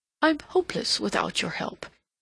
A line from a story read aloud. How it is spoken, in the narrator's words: he exclaimed passionately